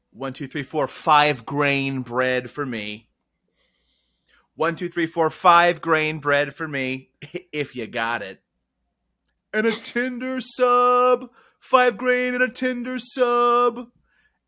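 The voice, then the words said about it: Imitates another person's voice. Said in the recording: “my impression of the man who I saw at the grocery store today”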